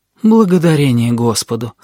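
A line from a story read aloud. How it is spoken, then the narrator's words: Relieved sigh, several voices. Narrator (Russian): облегченно вздохнули они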